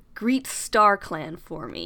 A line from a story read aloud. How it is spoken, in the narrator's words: he snarls